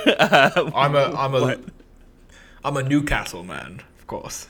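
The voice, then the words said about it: Accent slipping into Hugh Grant. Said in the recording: “My accent slipped into Hugh Grant a little there for a minute”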